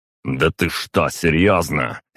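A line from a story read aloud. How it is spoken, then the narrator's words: Barking. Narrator (Russian): рявкнул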